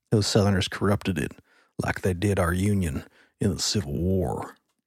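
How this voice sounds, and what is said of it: Put-on Southern accent. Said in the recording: “speaking that with a Southern accent”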